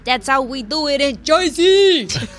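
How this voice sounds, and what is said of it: Exaggerated New Jersey accent. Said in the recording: “what's my accent? Joyzy”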